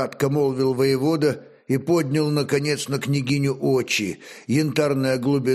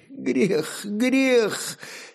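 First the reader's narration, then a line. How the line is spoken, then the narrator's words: Sobbing. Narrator (Russian): Сильное тело жены сотрясалось от рыданий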